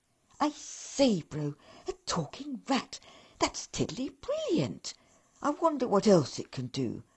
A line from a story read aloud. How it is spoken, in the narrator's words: said eagerly